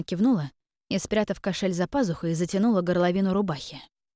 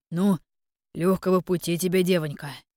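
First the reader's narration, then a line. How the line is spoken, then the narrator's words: Deep bass voice. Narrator (Russian): пробасил оружейник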